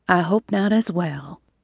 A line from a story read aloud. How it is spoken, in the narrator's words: Amber murmured